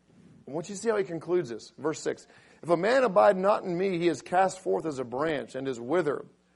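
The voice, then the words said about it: Raspy voice. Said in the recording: “does my raspy voice make me sound older? ... It's older and wiser.”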